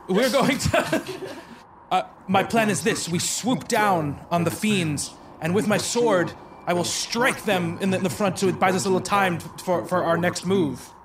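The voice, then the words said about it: Heroic Thor-like character voice. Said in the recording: “I gotta find a character voice again because I haven't used it. I try to think of Thor, but it's tough for me”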